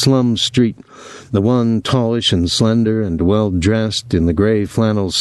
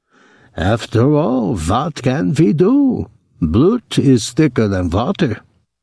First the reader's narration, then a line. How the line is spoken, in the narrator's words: his brother saying to his fat wife, in that ineradicable German accent